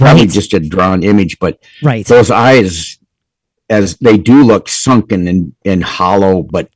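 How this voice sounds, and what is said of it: Usual voice. Nothing is said of it.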